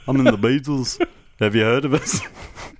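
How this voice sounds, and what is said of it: Imitates another person's voice. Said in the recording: “Paul McCartney's accent”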